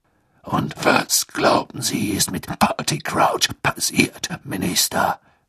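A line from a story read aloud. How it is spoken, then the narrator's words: Growling voice. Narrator (German): ertönte Moodys knurrende Stimme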